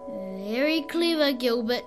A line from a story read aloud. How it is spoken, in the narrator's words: snarled the crime boss